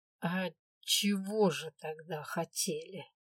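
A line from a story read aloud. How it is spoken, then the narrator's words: Harsh, not soft. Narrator (Russian): произнести это мягко не получилось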